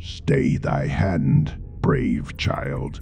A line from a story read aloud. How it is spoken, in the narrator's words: the god intoned